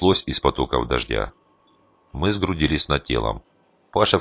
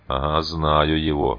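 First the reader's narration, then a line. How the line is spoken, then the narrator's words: Grumbled, charcoal burner. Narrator (Russian): буркнул угольщик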